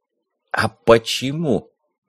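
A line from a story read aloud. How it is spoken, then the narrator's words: Hissing into phone. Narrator (Russian): прошипел в трубку я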